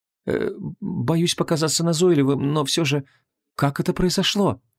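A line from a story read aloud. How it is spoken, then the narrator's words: Timid question. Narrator (Russian): робко спросил Лот Равен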